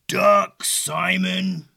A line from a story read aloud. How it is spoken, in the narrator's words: a low, rumbling, faraway voice growl